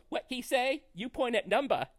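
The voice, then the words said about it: Badly imitated Chinese accent. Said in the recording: “the Chinese waiter ... this is going to be a horrible accent”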